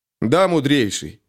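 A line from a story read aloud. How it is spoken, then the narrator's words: Firm. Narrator (Russian): ответил парень твердым голосом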